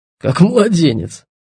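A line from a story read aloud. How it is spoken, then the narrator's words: Short laugh. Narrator (Russian): хохотнул Титов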